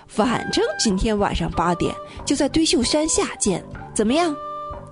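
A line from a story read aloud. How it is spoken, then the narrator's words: Grinning, cheerful. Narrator (Chinese): 严永乐笑嘻嘻地说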